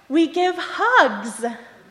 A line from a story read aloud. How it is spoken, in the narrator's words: he very loudly exclaimed